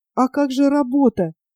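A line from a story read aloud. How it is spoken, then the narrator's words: Mother's trembling voice. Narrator (Russian): дрожащим голосом проговорила мать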